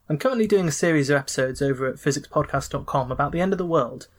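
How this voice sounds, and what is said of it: British accent. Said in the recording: “as you can probably tell from the accent in the UK”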